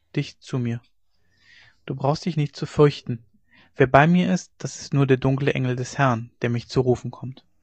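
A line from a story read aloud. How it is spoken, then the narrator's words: Weak old voice. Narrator (German): sagte der Alte mit matter Stimme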